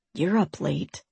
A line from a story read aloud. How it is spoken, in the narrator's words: he whispered